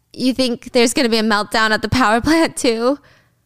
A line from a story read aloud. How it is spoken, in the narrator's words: George chuckles